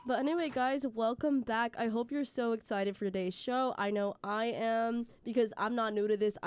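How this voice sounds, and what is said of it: Slightly scratchy voice. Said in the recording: “my voice sounds a little scratchy”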